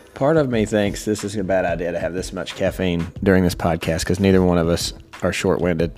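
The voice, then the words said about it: Country accent. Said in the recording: “this country accent”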